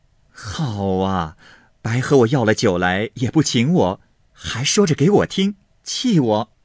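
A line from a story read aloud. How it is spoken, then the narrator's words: Laughing. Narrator (Chinese): 平儿笑道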